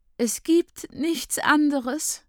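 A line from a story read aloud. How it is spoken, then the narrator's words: Sobbing young woman. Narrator (German): schluchzt die junge Frau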